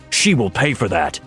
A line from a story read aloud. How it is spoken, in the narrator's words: Death growled